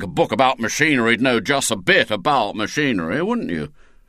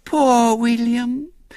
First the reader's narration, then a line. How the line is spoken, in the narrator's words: said Violet Elizabeth sweetly